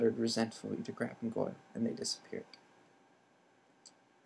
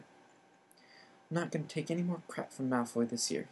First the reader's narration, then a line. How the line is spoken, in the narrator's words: he said angrily